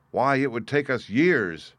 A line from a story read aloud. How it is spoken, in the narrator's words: exclaimed another